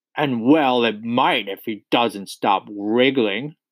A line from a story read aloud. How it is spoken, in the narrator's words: snorted this Trunchbull